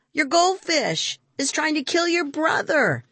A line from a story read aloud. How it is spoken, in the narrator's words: Pradeep shouted